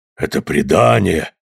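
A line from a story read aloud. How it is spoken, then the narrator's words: Mumbling. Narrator (Russian): пробормотал ангел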